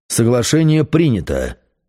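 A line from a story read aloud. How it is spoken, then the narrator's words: Angry. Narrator (Russian): зло сказал я сове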